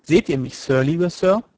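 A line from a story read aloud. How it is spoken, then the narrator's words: Plain. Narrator (German): fragte er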